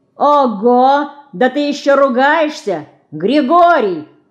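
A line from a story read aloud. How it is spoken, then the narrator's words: Boy shouting. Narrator (Russian): крикнул мальчишка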